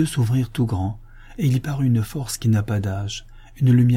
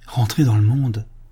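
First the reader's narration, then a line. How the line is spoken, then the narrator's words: Priest exclaiming. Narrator (French): s'écria l'abbé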